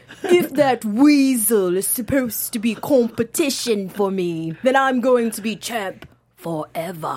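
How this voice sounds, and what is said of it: Bad impression of Neville's accent. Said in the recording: “I'm trying to do the accent ... That's like the worst impression ever ... You just did an impression of Neville doing his impression of Enzo”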